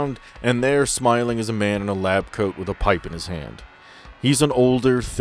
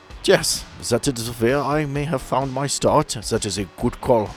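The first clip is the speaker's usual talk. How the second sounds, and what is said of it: Put-on German accent. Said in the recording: “So German, yeah? ... I suppose the accent was kind of a giveaway”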